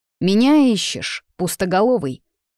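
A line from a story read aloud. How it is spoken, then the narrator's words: Growled. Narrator (Russian): Несущий тьму рыкнул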